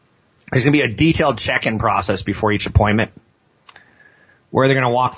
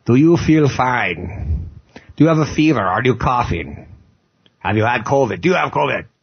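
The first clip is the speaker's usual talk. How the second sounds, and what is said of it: Imitates a doctor interrogating. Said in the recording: “That's my impression of a doctor interrogating me”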